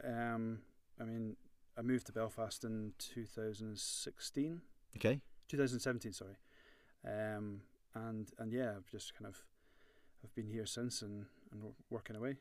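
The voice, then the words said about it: Scottish Edinburgh accent. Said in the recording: “born and bred in Edinburgh, as you can you can imagine from my accent ... it's not too local ... it could be from Ballymena”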